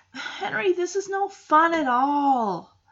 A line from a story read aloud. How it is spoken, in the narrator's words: She whines, saying